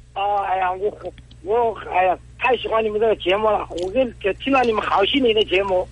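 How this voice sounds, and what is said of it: Regional non-local Chinese accent. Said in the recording (Chinese): “我听你的口音好像是呃外地人”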